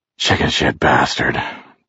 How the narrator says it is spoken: Jerry said, panting with pain

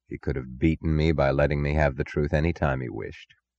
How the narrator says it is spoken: He said quietly

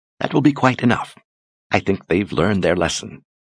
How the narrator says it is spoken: Ulyssia said softly

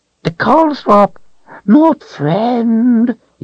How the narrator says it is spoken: it whined

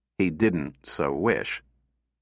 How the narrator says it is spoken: he said, his voice was mildly regretful

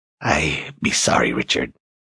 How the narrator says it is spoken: she whispered in her raspy voice

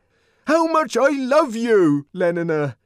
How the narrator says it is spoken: he brought out almost desperately

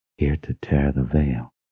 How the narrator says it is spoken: he whispered to himself

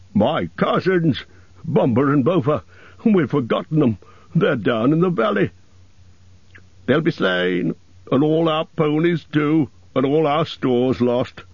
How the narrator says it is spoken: moaned the others

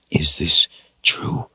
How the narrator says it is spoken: Richard asked in a whisper, his heart in his throat

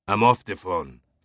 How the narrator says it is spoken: Fache snapped

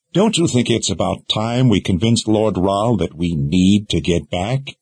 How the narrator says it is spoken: Kaylin sighed

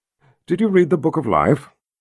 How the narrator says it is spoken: he calmly asked her

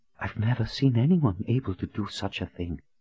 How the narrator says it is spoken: Anne whispered in astonishment

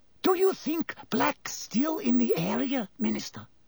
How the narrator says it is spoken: whispered Madame Rosmerta

